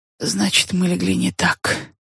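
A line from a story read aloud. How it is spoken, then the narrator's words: Quiet. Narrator (Russian): тихо сказала мадам Бизе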